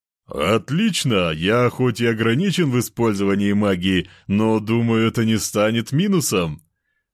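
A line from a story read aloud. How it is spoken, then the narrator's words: Loud laughter. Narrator (Russian): Расхохотался тот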